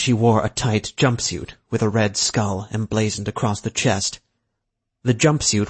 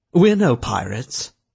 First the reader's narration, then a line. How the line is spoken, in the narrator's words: the man said with a grunt